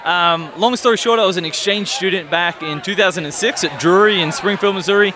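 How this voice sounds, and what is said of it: Slight accent between Australian and American. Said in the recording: “You have a slight accent. You know, it's not very Midwestern ... my accent's somewhere between Australia and America. I'm in like limbo”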